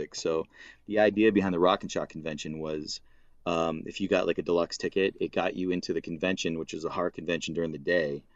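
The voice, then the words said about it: Regional accent, dropped R sounds. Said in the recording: “That's my accent again... because of our accent, it sounded like whore artist”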